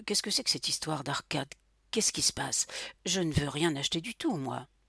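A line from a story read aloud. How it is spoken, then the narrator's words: Thick-voiced murmur. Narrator (French): murmura-t-il d'une voix pâteuse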